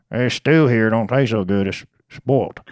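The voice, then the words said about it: Put-on hillbilly accent. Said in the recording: “That's more hillbilly. Yeah, than redneck.”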